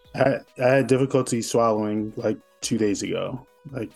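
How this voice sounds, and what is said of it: Raspy, hoarse recovering voice. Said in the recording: “Excuse my voice. I'm still recovering. ... ain't nobody mad about having that sexy rasp.”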